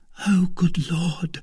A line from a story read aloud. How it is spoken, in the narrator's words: said Kitty in a low voice